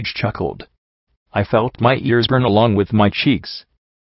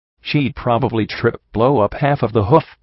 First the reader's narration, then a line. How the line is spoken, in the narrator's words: Rampage laughed